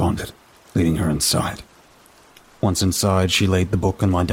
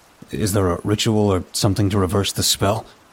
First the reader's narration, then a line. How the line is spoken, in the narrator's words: I asked